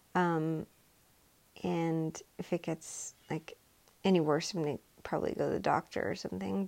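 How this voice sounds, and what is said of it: Voice sounds off, sore-throated. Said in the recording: “my voice is kind of off today, but I have like, I don't know, a sore throat or something.”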